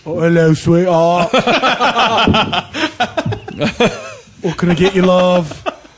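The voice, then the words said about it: Thick old English barmaid accent. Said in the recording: “A barmaid from 1920s England ... that thick of an accent”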